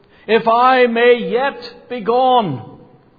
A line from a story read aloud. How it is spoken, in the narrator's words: once again he cried